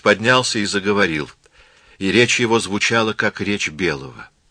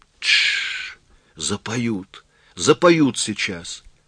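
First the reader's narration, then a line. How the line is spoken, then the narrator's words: Whisper. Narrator (Russian): Дилси прошептала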